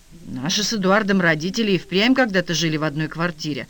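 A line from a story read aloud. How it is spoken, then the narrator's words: Calm explanation. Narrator (Russian): спокойно пояснил Попов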